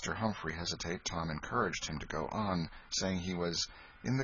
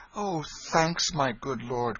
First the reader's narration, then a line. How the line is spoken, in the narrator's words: cried the boy